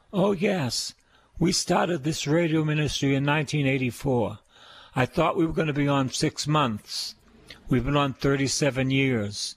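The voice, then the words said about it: Boston accent. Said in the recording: “you talk with the Boston accent... Say the word car, not ca, car... I'm a Bostonian”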